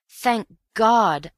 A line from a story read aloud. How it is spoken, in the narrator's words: I cried